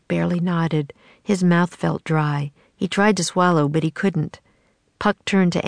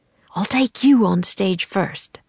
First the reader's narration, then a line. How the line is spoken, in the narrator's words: Puck whispered to Jack